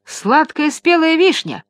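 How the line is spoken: Jeep's exclamation. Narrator (Russian): воскликнул джип

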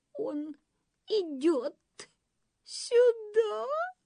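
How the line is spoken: Sobbed. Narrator (Russian): всхлипнула притворная дама

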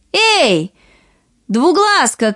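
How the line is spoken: Two voices shouting. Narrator (Russian): крикнули обе сестры

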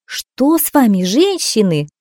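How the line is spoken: Exclamation. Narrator (Russian): воскликнула она наконец

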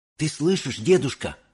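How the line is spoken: Whisper. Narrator (Russian): прошептал Чарли

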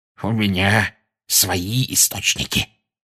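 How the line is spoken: Smug hiss. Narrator (Russian): самодовольно прошипел Филч

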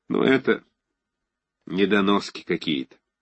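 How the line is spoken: Disgusted. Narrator (Russian): сказал с отвращением

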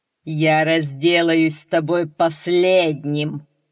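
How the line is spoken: Roaring laughter. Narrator (Russian): захохотал Полифем

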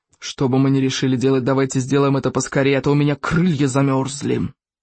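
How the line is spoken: Grumbling. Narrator (Russian): проворчал Яркоготь

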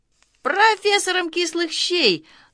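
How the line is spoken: Pleased guffawing laughter. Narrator (Russian): дружинник, довольный своей остротой, захохотал

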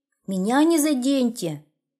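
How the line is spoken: Shouted. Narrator (Russian): как закричит

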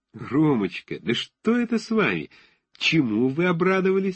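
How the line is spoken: Laughing. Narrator (Russian): сказала она, смеясь

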